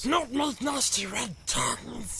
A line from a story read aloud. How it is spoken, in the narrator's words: hissed Gollum